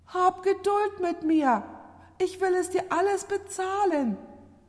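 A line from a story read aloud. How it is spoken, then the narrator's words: Frightened debtor pleading. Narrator (German): Da fiel der Schuldner erschreckt vor seinem Herrn nieder und flehte ihn an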